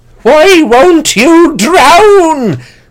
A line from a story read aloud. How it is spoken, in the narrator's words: he wailed